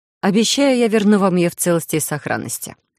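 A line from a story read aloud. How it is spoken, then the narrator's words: Cold. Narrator (Russian): холодно добавила госпожа Дилэн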